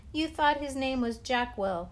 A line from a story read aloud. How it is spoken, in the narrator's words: laughed